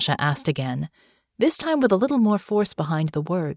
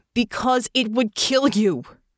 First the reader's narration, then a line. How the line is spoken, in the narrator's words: Russo snapped